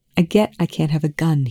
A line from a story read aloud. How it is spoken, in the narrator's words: he said